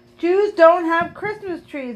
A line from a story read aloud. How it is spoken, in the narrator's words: I yelled back